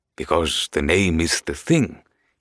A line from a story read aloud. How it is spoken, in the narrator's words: he said in his shy, soft, husky voice